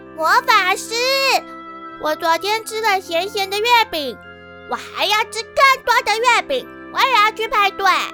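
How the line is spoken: Loud question. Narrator (Chinese): 草草大声的问

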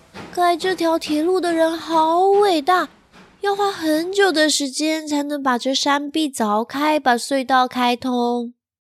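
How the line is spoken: Admiring. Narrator (Chinese): 小希赞叹地说

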